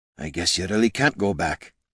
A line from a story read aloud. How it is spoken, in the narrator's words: he whispered to himself